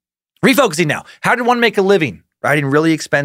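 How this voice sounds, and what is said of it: Usual voice. Nothing is said of it.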